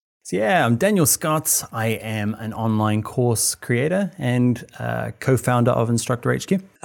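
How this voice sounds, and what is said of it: New Zealand accent. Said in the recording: “I'm hearing a little bit of an accent ... I'm from New Zealand ... Most people say Australian”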